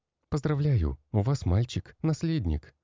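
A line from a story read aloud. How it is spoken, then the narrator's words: Joyful announcement. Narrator (Russian): радостно заявила акушерка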